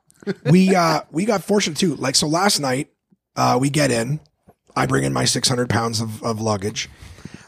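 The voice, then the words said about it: Hoarse, gruff, strained voice. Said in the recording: “I'm already losing my voice... I'm losing my voice... It's just been more gruff. It's like sandpaper on your eardrums.”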